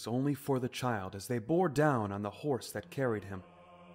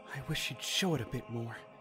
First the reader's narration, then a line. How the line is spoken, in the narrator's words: Link muttered